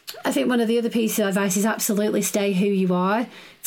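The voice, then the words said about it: Northern English accent. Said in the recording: “I do have a northern accent”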